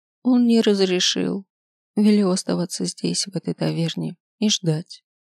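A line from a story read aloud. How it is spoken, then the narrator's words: Calm reply. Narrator (Russian): спокойно ответила Мидла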